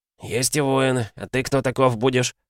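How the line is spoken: Husky male voice. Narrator (Russian): Один из них отозвался хрипловатым голосом

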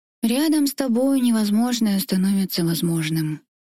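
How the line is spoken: Sad, smiling. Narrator (Russian): грустно улыбаясь

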